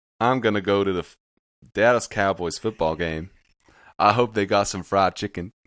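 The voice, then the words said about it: Put-on American accent. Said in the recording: “That was pretty good ... your voice in an American accent”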